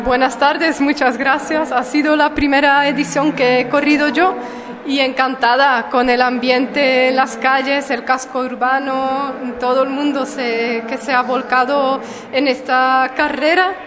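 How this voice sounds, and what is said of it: Belgian accent in Spanish. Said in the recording (Spanish): “lo podrán escuchar por el acento, es belga”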